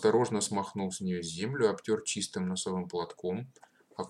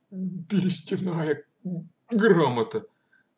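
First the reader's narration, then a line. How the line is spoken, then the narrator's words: Strange strained voice. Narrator (Russian): произнес он каким-то странным сдавленным голосом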